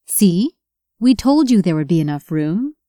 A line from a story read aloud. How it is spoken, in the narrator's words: Michelle said